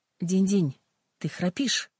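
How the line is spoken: Plain. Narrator (Russian): сказала Ким

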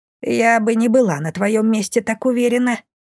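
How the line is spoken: Muffled squeak. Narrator (Russian): пискнула спрятавшаяся под кипой бумаг Бумба

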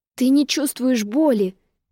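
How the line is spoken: Frightened exclamation. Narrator (Russian): испуганно воскликнула я

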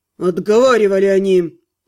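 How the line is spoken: Growled. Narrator (Russian): Рыкнул некромант

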